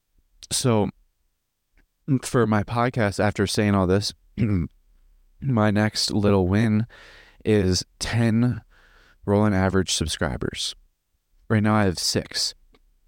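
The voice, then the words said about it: Strained voice, losing its strength. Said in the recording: “my voice is kind of going out right now”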